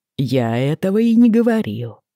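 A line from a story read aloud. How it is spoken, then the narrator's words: Calm repetition. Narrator (Russian): повторил Джейми спокойно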